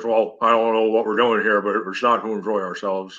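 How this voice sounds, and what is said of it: Bill Belichick impression. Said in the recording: “like a Belichick quote ... That's a pretty good impression.”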